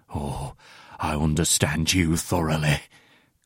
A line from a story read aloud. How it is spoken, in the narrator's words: growls bitterly